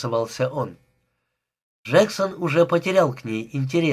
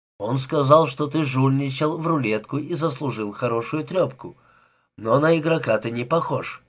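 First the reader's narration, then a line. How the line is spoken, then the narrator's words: Hesitant female voice. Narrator (Russian): неуверенно промолвила она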